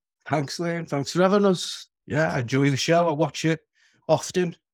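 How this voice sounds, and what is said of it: Liverpool Scouse accent. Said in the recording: “your accent ... I should actually guess from the accent, I'm a Scouser, but regarded as a plastic Scouser”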